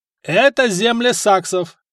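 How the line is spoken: Shouted, count. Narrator (Russian): крикнул граф

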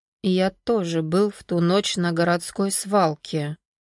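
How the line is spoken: Quiet speech. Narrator (Russian): Сергей ошеломленно негромко сказал

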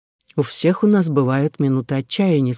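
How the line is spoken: Plain. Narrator (Russian): сказал сэр Уильям

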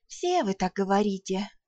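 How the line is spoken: Sigh. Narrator (Russian): вздохнула я

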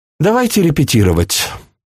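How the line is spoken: Sighing woman. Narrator (Russian): вздохнула она

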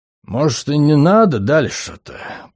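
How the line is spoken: Grumbling. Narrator (Russian): проворчал Хаксют

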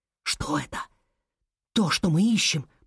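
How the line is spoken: Whispered. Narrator (Russian): прошептал Алекс

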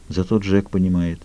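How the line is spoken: Quiet. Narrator (Russian): тихо произнесла она

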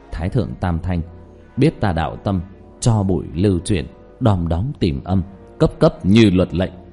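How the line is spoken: Murmured incantation. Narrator (Vietnamese): Diệp Thiếu Dương trong miệng thì thầm

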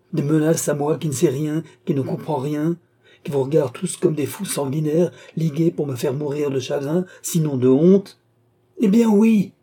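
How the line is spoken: Exclaiming. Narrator (French): s'écria Philippe

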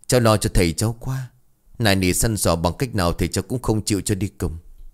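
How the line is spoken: Sighing. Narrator (Vietnamese): Tư liền thở dài

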